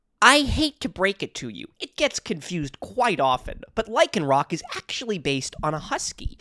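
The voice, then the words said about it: Put-on character voice reading comment. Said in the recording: “do a little voice? How I think Mother Nature sounds.”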